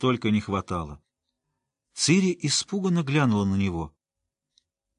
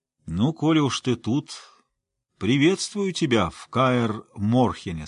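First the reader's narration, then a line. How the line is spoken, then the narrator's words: Plain. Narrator (Russian): сказал он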